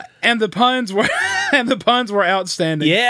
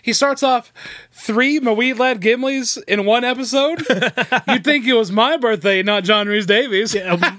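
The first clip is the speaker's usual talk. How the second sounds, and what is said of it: Impression of a co-host telling jokes. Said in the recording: “that was my impression of Philip telling a joke”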